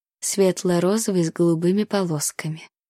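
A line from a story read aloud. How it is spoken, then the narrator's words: Purring. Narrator (Russian): промурлыкала я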